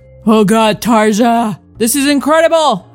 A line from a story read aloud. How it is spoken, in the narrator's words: I moaned, chewing loudly